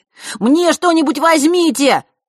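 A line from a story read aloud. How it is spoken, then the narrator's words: Shouted from below. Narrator (Russian): крикнул снизу Ник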